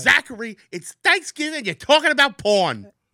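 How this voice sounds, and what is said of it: Imitated thick New Jersey accent. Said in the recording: “My mom's got a very thick Jersey accent.”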